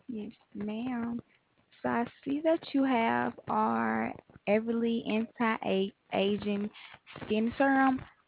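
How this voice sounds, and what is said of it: Slight Southern American accent. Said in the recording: “I thought I was picking up a little bit of a Southern accent”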